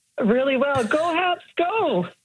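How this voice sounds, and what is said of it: Excited, enthusiastic voice. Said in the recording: “You sound excited... I'm very excited”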